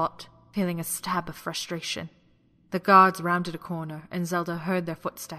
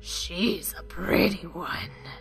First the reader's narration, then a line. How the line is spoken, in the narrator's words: the Moblin growled